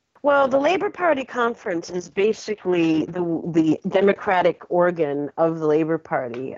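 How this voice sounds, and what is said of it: American accent. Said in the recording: “she's originally American, but she's been living in England for years now”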